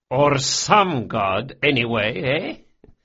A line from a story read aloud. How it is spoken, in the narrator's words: Barsavi chuckled